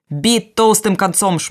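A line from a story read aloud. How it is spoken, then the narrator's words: Shouting sailor. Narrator (Belarusian): закрычаў матрос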